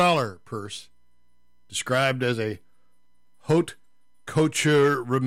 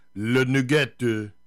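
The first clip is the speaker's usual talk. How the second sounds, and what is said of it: Slight put-on French accent. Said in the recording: “I had to say that with a little bit of a French accent”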